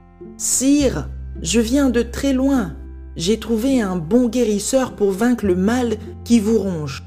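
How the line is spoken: Plain. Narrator (French): dit-il

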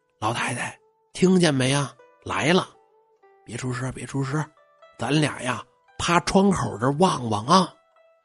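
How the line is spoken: Young maid's hushed voice. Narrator (Chinese): 丫鬟岁数小，压低了声音就说

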